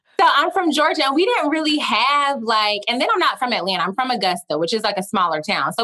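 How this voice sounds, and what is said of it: Southern Georgia twang. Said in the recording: “I'm from Georgia. Y'all will probably hear the twang at multiple points.”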